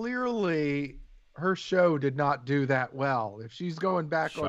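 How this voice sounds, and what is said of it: Usual voice. Nothing is said of it.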